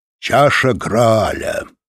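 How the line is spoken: Solemn. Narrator (Russian): торжественно начал он свою речь

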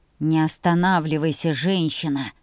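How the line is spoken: Growling grumble. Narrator (Russian): заворчал ящер

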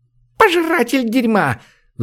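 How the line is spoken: Shriek. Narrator (Russian): взвизгнула полная лучница

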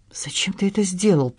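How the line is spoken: Whisper. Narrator (Russian): прошептал Анри

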